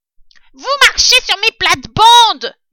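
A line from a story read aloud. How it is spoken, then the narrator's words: Rat yelling. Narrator (French): hurla le rat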